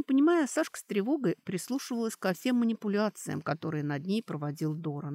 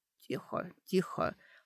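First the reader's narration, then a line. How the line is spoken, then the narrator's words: Quiet, from above. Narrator (Russian): Откуда-то из другой темноты, сверху, тихо сказал Доран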